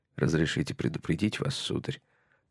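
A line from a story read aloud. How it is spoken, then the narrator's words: Quiet. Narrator (Russian): сказал он негромко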